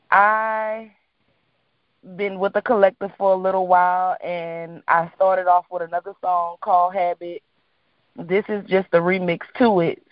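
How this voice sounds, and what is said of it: New Orleans accent. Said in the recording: “I'm from New Orleans, as you probably can hear in my voice. My tone, everything, our accent.”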